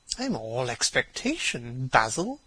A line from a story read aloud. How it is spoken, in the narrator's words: murmured his companion